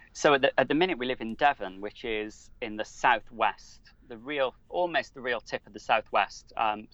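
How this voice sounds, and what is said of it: UK accent. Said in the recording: “you and I don't sound the same when we talk. Like, I have an accent, but you do too. And you've mentioned the UK and Wales”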